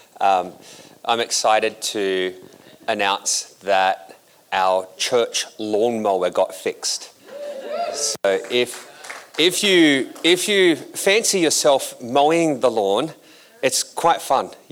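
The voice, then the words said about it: Australian accent. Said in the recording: “an Australian accent”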